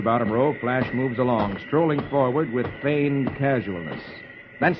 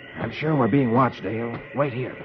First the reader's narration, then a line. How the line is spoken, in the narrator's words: Flash whispers